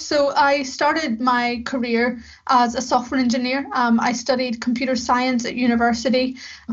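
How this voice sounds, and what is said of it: Northern Irish accent. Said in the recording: “Belfast in the north of Ireland, where I'm from. As you can maybe tell by my accent”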